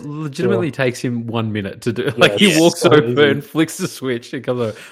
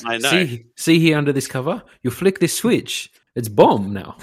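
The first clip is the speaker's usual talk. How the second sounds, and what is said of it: Put-on foreign character accent. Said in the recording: “that racist accent ... I don't know why I put an accent on him”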